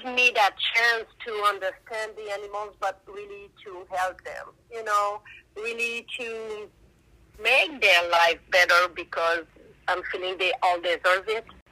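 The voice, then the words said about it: Speaks English with a foreign accent. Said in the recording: “So I hope my English was not too bad... I think your accent is amazing. It gives you a little extra pizzazz in everything you do.”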